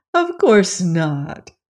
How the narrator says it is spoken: exclaimed the ruler of Oz, laughing gaily

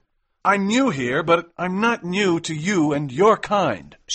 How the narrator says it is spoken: shouted McMurdo

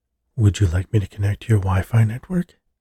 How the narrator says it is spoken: asked in a somewhat sultry female voice

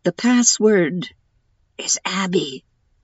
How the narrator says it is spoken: whispered

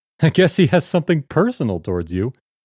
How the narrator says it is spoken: told me while laughing

